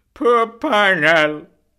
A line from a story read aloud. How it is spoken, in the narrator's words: he cried loudly